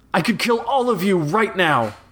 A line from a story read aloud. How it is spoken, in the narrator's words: Flag shouted, desperation in his tinny voice